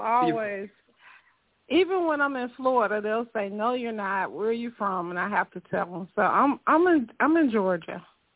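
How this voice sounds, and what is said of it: Southern US accent, Georgia. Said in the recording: “You sound Southern. ... Southern accent. That's one of the best accents. It's one of the most trusting accents ... a lot of people say it's country”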